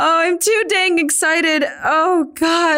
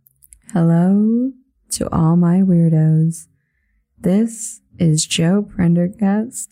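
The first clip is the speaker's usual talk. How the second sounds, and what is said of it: Polished NPR radio-host voice. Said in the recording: “I can't maintain the NPR voice.”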